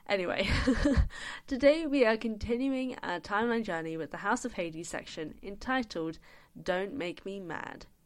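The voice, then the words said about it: Sick, unwell-sounding voice. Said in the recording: “I am very, very sick at the moment, so I apologize for how my voice is going to sound ... I sound awful ... you may just hear me being sick”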